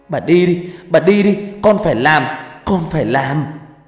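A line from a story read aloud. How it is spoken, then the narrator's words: Shouting through tears. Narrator (Vietnamese): hét lớn trong nước mắt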